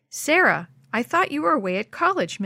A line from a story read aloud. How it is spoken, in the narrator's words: Melanie exclaimed